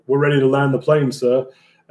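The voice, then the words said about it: Terrible put-on British accent. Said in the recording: “my terrible British accent”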